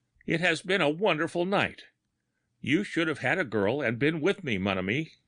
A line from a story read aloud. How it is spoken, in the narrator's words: he cried